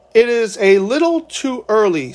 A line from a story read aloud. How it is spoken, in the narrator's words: said the lama